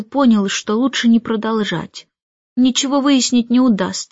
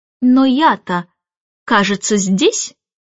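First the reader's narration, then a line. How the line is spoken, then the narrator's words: Contemptuous laugh. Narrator (Russian): Мэри Поппинс презрительно рассмеялась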